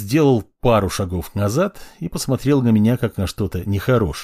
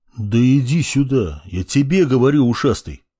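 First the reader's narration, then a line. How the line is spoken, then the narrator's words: Deep voice. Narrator (Russian): пробасил я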